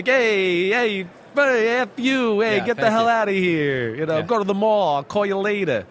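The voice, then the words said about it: Exaggerated New Jersey accent. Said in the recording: “I lost my jersey accent when I left Jersey ... when I get around my Jersey friends ... Then all of a sudden I'm like”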